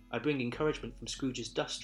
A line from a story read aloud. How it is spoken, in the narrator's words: replied the ghost